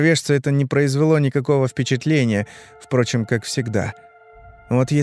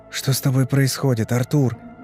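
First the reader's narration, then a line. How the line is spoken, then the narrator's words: Quiet question. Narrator (Russian): тихо спросил я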